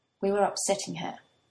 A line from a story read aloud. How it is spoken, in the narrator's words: Toya says quietly